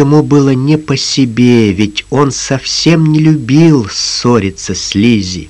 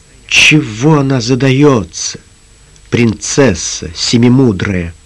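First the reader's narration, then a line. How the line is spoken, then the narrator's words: Gloomy mutter. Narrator (Russian): мрачно пробормотал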